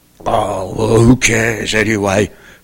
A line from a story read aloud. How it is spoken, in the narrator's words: Freddy muttered